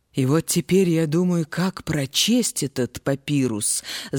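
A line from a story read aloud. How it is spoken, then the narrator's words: Heavy sigh. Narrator (Russian): закончил Сатнехемуас свой рассказ, тяжело вздохнул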